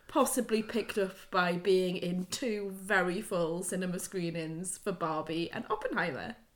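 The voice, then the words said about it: Hoarse, strained, losing voice. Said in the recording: “my voice is gone ... I can already tell from my voice that I'm a little bit like, what would we call in the North, claggy? There's a lot going on in the back of my throat”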